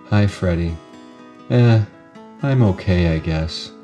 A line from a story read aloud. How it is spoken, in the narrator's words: Sashi stopped and said flatly